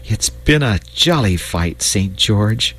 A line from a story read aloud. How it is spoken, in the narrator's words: he said with a sigh